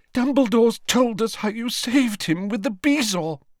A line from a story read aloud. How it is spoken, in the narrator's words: she sobbed